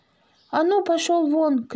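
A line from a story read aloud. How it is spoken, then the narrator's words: Sudden shout, neighbor woman. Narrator (Russian): крикнула вдруг соседка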